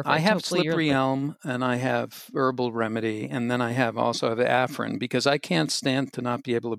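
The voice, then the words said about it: Congested voice with a cold. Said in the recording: “you have a cold”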